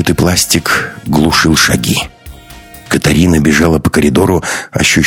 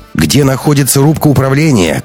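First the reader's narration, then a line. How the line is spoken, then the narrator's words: Shouted. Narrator (Russian): крикнула Катарина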